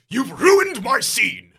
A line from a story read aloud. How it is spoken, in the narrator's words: He shouts